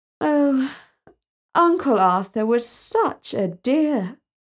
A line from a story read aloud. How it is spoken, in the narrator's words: Talia sighed and said